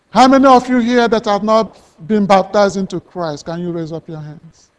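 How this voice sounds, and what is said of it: Noticeable accent in English. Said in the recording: “Maybe you don't understand my accent.”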